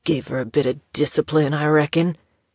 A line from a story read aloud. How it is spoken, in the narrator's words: the apparition of her grandfather grunted